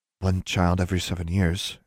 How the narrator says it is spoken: Anna said quietly

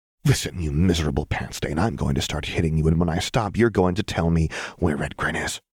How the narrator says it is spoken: she hissed

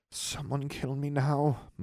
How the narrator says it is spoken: muttered Daphne

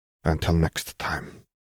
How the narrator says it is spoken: Gillard muttered

